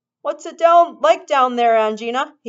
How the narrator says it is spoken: called out

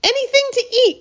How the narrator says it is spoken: cried Charlie, laughing

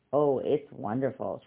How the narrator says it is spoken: Charlie said

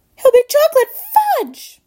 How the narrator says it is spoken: squeaked Mrs

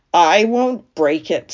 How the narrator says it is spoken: snarled Templeton

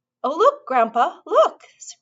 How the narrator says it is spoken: cried Charlie

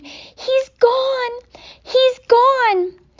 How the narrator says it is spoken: her great red mouth opened wide, and she screamed

